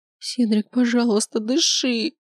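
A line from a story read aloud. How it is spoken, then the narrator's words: Pleading. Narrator (Russian): Взмолилась я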